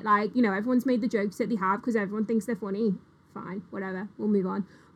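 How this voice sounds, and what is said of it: Mixed Liverpool Scouse accent. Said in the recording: “I've a mongrel of an accent ... you can tell I've spent most of my life in Liverpool, but like you can also tell that I've spent time away from it ... you're Scouse”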